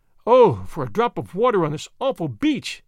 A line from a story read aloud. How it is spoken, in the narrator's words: she cried in agony